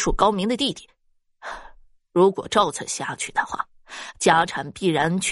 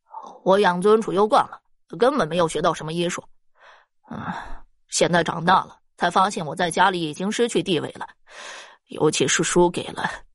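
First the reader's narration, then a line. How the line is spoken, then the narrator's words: Cold, resigned. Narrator (Chinese): 施方已然是破罐子破摔了，冷冷的道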